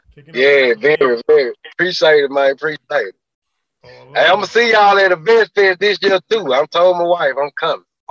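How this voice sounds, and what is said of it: Southern US accent. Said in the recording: “I love that accent. ... Deep in the South.”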